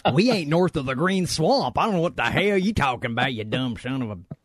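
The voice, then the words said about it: Put-on regional accent. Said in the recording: “I do that accent well, don't I, Mags? That one I do well.”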